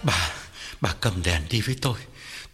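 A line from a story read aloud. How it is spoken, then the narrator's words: Trembling old man. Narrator (Vietnamese): Ông Phú run run bảo vợ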